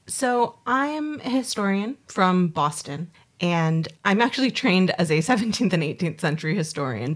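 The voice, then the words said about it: Foreign accent, from far away. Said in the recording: “we've got a lady who's travelled a long way to get here as well, as soon as you hear her accent.”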